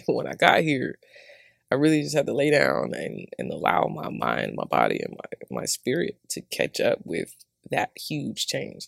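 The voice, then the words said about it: Southern American accent. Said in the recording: “Me and my southern accent”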